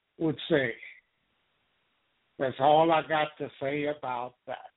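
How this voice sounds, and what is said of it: Forrest Gump impression. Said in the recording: “my Forrest Gump impersonation”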